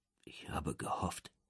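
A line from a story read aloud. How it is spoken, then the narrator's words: Soft old man's voice. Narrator (German): sagt der Alte leise auf Deutsch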